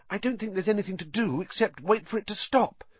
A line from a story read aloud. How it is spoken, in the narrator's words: said Hermione anxiously